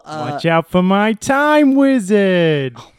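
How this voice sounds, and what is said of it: Put-on New York accent. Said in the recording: “Gotta pick up this New York accent ... That was actually surprisingly to myself pretty good ... That was pretty good”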